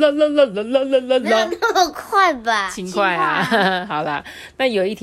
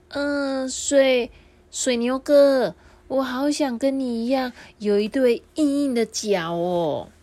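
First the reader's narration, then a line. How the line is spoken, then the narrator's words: Very soft voice. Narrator (Chinese): 瓜牛小小声的说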